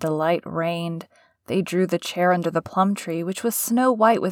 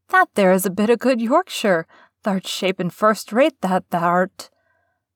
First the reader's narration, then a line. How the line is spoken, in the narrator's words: cried Mary admiringly